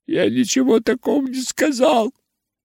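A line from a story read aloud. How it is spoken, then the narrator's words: Sobbing. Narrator (Russian): всхлипывал юноша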